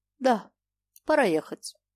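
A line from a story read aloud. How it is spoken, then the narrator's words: Calm. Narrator (Russian): спокойно сказала Ухтищева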